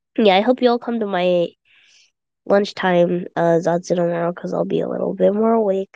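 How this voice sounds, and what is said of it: Sleepy, tired-sounding voice. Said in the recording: “You sound sleepy. ... I'm pretty sleepy. I am pretty sleepy.”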